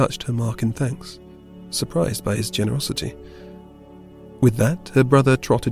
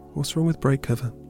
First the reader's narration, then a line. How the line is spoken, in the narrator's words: she asked